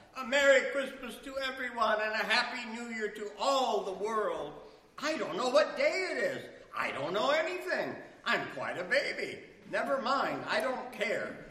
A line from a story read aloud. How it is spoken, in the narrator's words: shouted out